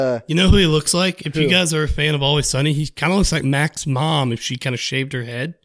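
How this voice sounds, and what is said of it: Usual voice. Nothing is said of it.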